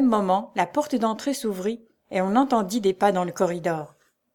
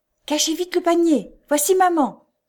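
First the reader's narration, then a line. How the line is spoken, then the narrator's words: Exclaiming. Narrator (French): s'écria Joe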